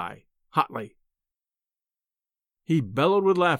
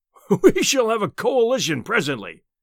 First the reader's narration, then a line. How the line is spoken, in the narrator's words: he boomed, puffing out his enormous chest